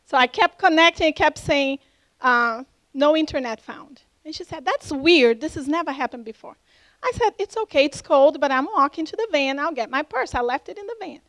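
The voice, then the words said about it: Slight foreign accent. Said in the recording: “She had a little accent like me.”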